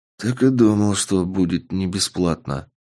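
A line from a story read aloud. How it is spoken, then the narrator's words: Muttered. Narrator (Russian): пробормотал я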